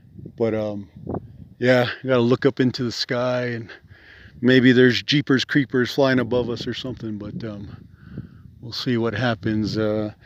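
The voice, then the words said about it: Quiet, lowered voice. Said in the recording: “I'm just trying to lower my voice a little bit so I can hear”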